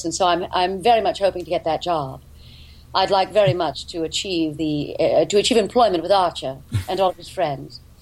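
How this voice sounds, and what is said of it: Put-on mid-Atlantic accent. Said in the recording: “speaking in a mid-Atlantic accent like this”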